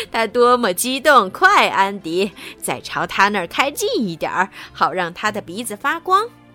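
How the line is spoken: Giggling grandmother. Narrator (Chinese): 外婆咯咯的笑着说

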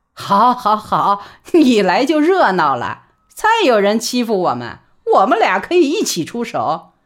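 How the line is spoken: Laughing. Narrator (Chinese): 何嫂只是笑道

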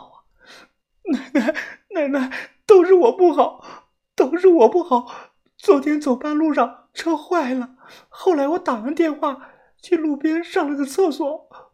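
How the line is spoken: Crying, red-eyed. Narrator (Chinese): 大姐红着眼哭道

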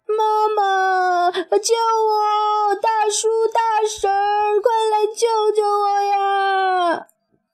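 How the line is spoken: Desperate struggling cry. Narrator (Chinese): 小熊猫拼命挣扎着叫道

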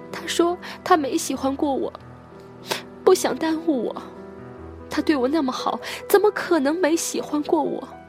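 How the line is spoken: Sobbing. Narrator (Chinese): 颖儿在柠檬面前哭成了泪人儿，颖儿说

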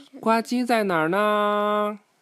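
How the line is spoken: Calling out. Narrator (Chinese): 他叫道

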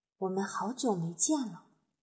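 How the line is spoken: Murmuring. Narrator (Chinese): 法力喃喃地说

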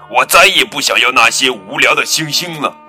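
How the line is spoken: Angry roar. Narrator (Chinese): 坏脾气的格拉夫冲着小兔子怒吼

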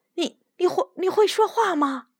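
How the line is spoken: Stammering. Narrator (Chinese): 他结结巴巴地说

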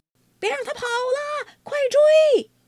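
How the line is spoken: Distant shouting. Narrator (Chinese): 远处传来一阵叫喊声

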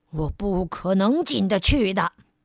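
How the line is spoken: Stern, sharp voice. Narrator (Chinese): 傲慢先生厉声说道

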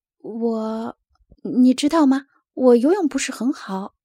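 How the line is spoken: Stammering. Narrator (Chinese): 拉尔斯结结巴巴地说

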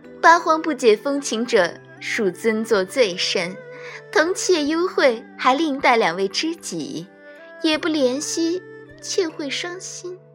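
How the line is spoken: Flirtatious giggling demoness. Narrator (Chinese): 女妖……咯咯笑道

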